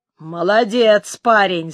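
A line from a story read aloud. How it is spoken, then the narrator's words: Hoarse. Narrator (Russian): сказал хрипло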